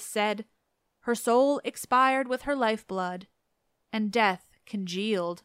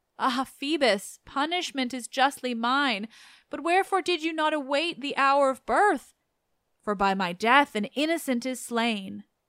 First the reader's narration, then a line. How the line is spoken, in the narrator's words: she wailed